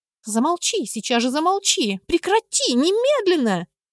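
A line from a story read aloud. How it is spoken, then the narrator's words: Childish shriek. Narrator (Russian): завизжала кузина, по-детски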